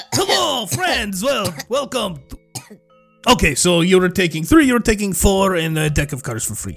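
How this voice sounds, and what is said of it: Put-on accent. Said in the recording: “Keep the accent, lose the smoke thing.”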